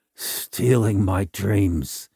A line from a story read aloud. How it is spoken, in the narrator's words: mumbled softly as the drug began to take effect